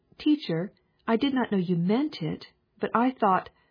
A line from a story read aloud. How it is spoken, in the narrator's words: Each one cried